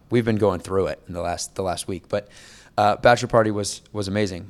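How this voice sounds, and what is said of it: Strained, worn-out voice. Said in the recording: “my voice is completely ... You're struggle busting it over there, and I appreciate you fighting through the fatigue.”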